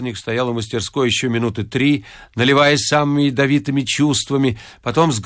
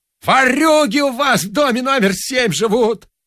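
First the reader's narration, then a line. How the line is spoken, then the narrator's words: Yelling. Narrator (Russian): вопил дворник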